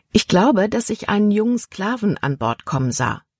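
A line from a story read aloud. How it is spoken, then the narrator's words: Plain. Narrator (German): antwortete Libby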